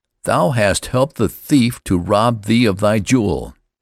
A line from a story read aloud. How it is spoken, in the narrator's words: they cried